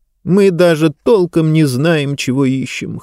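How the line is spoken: Whimpering. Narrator (Russian): хныкала Диба

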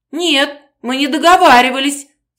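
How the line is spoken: Sobbing. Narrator (Russian): всхлипнула

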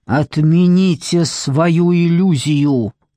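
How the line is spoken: Deep animal growl. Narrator (Russian): Голос Торна шел откуда-то изнутри, как звериное рычание

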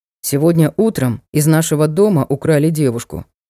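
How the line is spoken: Grim squire. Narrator (Russian): мрачно сообщил оруженосец

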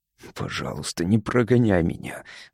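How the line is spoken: Whispering. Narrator (Russian): зашептал Кар

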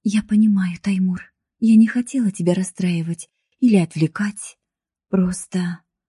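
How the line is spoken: Quiet, holding back tears. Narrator (Russian): Ее губы слегка дрогнули, но она сдержалась от слез и тихо сказала

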